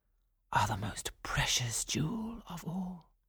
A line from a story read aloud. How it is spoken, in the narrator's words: whispered Florimond to Aurora